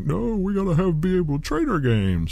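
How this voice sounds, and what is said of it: Whiny, crying voice. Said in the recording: “Pretty good impression. ... My big crying. That's my whiners impression.”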